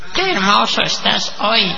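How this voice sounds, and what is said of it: Doll voice like an older woman. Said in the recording (Spanish): “con voz de muñeca ... Es la voz de una señora mayor, ¿no? ... Tienen voz de vieja la muñeca.”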